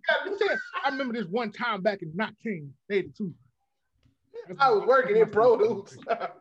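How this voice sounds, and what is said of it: Imitates another person's voice. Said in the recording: “That's my impression of Gotham's impression of Steve Harvey.”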